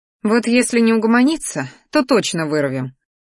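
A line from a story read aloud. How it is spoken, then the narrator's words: Mental snort. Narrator (Russian): фыркнула мысленно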